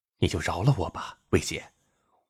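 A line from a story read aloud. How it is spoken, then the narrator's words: Quiet pleading reply. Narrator (Chinese): 连城小声的回应魏菲菲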